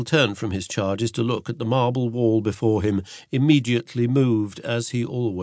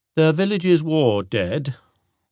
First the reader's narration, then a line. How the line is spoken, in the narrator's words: Will said solemnly